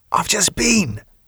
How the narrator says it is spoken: Kevin whispered

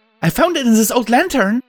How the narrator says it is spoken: she piped, jumping up and down

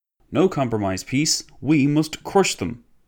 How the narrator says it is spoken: exclaimed a former minister of public works

